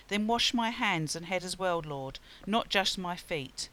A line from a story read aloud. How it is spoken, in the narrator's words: Simon Peter exclaimed